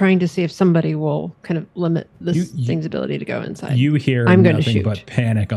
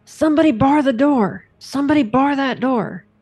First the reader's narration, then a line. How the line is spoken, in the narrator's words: Sue Ann is going to yell